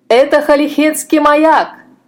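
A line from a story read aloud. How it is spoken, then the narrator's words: Shouting. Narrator (Russian): закричал капитан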